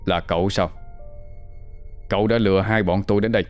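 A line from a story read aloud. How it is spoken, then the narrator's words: Harsh, clipped voice. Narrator (Vietnamese): Hùng gằn giọng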